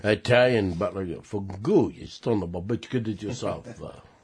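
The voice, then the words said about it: Attempted Italian accent. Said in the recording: “I was trying to do an Italian accent, which is really hard to do”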